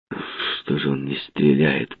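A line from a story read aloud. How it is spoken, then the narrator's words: Mutter. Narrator (Russian): пробормотал Кэмп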